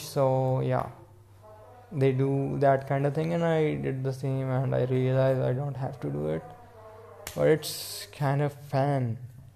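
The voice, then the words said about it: Indian accent. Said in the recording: “I'm talking in Indian accent”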